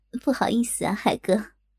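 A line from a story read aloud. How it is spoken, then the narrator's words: Cheerful giggling. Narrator (Chinese): 萍姐笑嘻嘻的说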